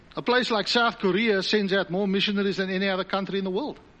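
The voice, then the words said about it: South African accent. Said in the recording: “I came from South Africa, as you can pick up on the dodgy accent.”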